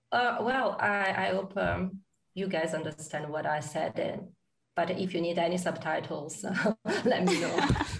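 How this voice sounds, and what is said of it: Italian-accented English. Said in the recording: “it's a very romantic accent, the Italian accent”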